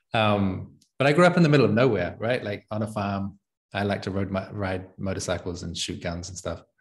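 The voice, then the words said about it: Distorted, well-traveled New Zealand English accent. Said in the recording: “I'm not Italian. I've got one of these weird versions of English accents ... this is a particular accent of people that have traveled quite a bunch. It's this like distorted, well, I'm from New Zealand, but it gets distorted by having spent most of the last 6 years outside of New Zealand ... I don't know how to do a proper New Zealand accent anymore. It's this like very distorted thing.”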